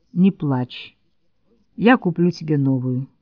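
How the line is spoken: Quiet father. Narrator (Russian): Отец тихо сказал

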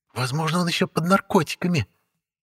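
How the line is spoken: Hissing. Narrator (Russian): прошипела Анна Михайловна в сторону босса

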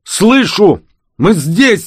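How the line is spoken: Shout. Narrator (Russian): закричал Данила

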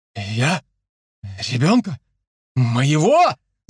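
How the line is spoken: Happy shouted whisper. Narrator (Russian): заорал счастливым шепотом Чибис

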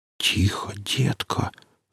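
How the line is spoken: Whispered, disconcerted. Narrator (Russian): зашептал обескураженный сталкер

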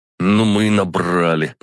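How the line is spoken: Grumbling. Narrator (Russian): пробурчал

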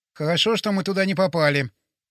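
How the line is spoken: Mumbling. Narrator (Russian): пробормотал Боря

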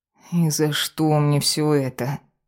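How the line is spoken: Muffled moan. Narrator (Russian): простонала Ева, пряча голову под подушку

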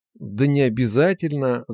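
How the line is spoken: Babbling again. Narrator (Russian): залепетал вновь

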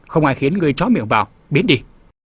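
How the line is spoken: Old man barking. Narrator (Vietnamese): Lão nhân quát

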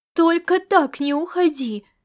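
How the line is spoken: Pleading. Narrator (Russian): взмолилась она

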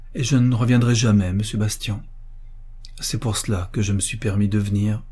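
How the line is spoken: Murmured. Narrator (French): murmura Jean

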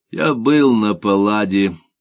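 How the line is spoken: Gloomy. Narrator (Russian): мрачно сказал Путятин

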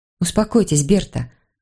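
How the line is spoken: Gentle. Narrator (Russian): ласково сказала я

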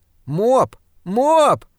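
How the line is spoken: Shout. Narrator (Russian): крикнула Дебби

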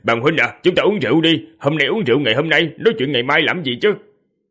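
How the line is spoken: Loud laughing. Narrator (Vietnamese): Một người bên cạnh cười to

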